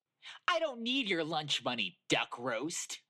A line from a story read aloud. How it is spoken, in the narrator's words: Foxy snapped